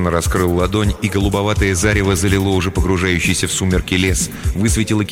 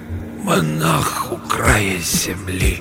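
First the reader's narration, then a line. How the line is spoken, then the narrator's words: Hoarse, breathy repetition. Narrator (Russian): Усыскин хрипло вдохнул воздух и повторил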